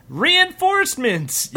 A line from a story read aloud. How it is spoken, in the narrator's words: yelled Stumplin, the ancient protector Stump